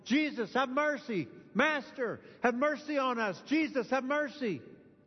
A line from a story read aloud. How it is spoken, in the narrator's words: It was just yelling, screaming, yelling